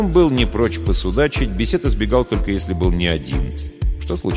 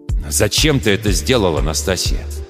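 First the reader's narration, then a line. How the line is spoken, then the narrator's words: Serious, almost angry question. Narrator (Russian): Вдруг серьезно, почти зло спрашивает Грот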